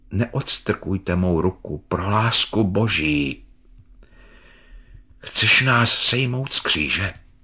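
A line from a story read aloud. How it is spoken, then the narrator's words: Dark, sad voice. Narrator (Czech): řekl ukřižovaný temným a smutným hlasem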